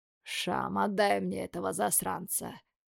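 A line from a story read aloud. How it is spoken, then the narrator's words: Tired sigh, father. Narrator (Russian): устало вздыхает отец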